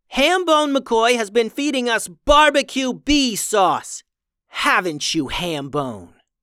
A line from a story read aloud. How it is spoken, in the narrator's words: Samaya shouted